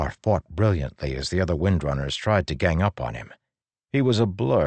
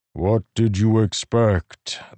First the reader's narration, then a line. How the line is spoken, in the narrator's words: the Stormfather rumbled in his mind